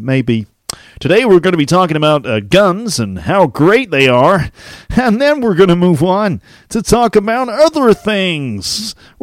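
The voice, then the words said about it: Put-on Midwestern American accent. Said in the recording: “somewhere in the Midwest of America, maybe ... my accent and how no one really knows which part of America it comes from”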